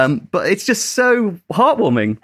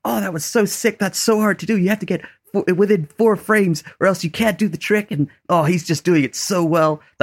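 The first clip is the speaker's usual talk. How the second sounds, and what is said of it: Put-on American accent. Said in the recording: “That's my American accent.”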